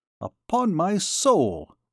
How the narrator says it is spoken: exclaimed Jean

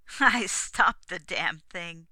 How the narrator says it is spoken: he chuckled like a pleased schoolboy

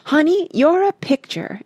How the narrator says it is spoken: exclaimed Miss Pearl, clasping her hands in admiration

